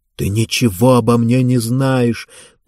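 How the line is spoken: Through gritted teeth. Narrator (Russian): процедила Дениса

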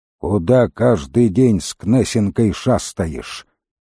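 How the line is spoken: Gloomy question. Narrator (Russian): мрачно спросил Крут

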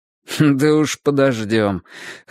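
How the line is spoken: Snorting. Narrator (Russian): хмыкнул Юджин

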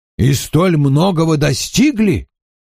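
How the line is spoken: Exclaiming. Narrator (Russian): воскликнул мистер Хонифуд

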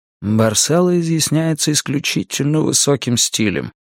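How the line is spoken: Father speaking in undertone. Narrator (Russian): вполголоса сказал мне отец

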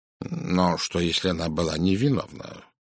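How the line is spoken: Muttered. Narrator (Russian): пробормотал Пуаро

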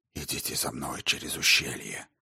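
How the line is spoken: Whisper. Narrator (Russian): шепнул он Каттеру

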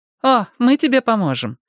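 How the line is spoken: Cheerful. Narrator (Russian): весело заметила Мэтти

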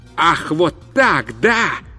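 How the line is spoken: Shout. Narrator (Russian): закричал он

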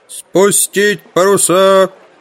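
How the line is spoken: Roaring loudspeaker. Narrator (Russian): взревел динамик

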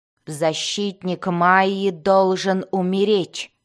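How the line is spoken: Growled. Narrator (Russian): прорычала Бриза

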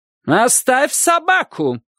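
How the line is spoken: Shouting. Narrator (Russian): кричала она

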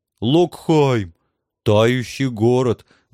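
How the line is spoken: Reverent drawl. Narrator (Russian): благоговейно протянул трусливый рыцарь

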